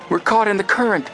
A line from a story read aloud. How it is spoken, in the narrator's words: he exclaimed frantically